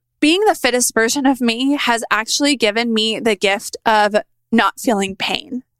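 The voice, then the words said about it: Choked-up, emotional voice. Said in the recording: “I'm getting choked up a little bit”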